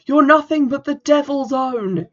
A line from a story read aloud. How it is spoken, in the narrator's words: he screamed